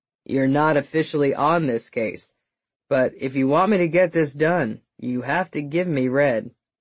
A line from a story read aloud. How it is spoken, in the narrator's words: Thomas said flatly